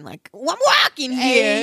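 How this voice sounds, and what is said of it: Put-on Boston or New York accent. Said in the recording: “I do like Walking with the Boston accent ... or New York accent”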